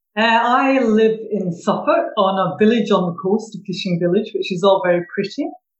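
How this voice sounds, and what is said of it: Scottish Glaswegian accent. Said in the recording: “that's not a Suffolk accent, is it? No, no, originally from Glasgow ... Every time I go back north, they say I've lost my accent ... they don't understand what I'm saying if I use my good old vernacular Glaswegian ... I love Scottish accents”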